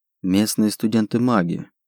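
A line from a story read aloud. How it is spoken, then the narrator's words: Elf muttering. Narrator (Russian): пробормотал эльф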